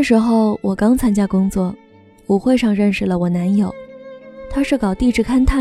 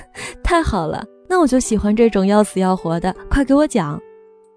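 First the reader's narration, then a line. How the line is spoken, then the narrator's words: Laughing out loud. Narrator (Chinese): 我一下子笑出声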